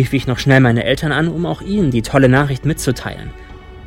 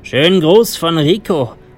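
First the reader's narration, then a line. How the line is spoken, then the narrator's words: Calling out. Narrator (German): rief mir der eine zu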